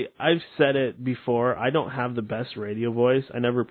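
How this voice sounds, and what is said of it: Usual voice. Nothing is said of it.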